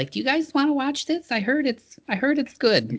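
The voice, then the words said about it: Stock white lady mom voice. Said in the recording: “She doesn't sound like that, but that's just sort of my stock. That's my sort of stock white lady mom voice.”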